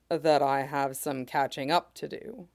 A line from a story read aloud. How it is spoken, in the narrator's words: he says quietly